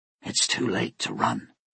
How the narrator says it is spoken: she whispered

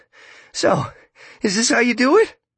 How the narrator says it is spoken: Starkey asks, his voice beginning to quaver

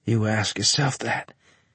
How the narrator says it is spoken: I wheezed

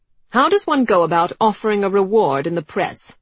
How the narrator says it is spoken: Tilden she said sharply

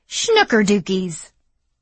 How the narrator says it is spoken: exclaimed

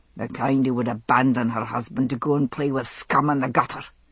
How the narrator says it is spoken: he snapped

